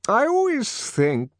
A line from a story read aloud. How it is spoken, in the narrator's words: the director was continuing in the same rather maudlin tone